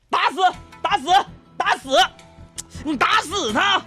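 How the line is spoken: Loud angry shouting. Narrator (Chinese): 非常大声又非常愤怒的声音

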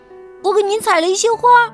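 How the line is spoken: Shouting. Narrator (Chinese): 他叫喊着

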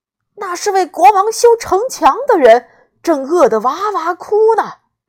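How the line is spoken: Loud shout. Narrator (Chinese): 老二千里眼大叫

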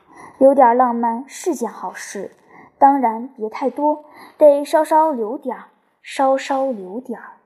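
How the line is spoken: Timid, low voice. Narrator (Chinese): 他怯生生地低声道

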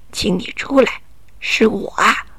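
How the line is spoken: Low disguised falsetto. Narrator (Chinese): 霍森布鲁茨压低了嗓门，用假嗓子说道

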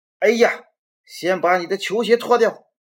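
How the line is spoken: Father yelling from kitchen. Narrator (Chinese): 爸爸就在厨房里嚷嚷着

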